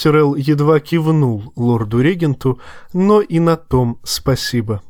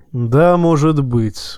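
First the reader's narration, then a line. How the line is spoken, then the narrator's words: Weary. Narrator (Russian): устало проронил Кивен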